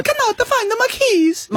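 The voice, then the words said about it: Put-on Italian grandmother accent. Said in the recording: “That was not how my Nonna sounded ... did not sound like that. Right. But I'm happy for you to use that accent.”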